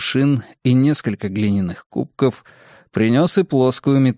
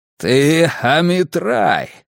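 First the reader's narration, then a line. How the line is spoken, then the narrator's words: Growling. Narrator (Russian): прорычал Грюнальди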